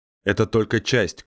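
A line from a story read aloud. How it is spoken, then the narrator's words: Shouted reply. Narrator (Russian): крикнул Массак в ответ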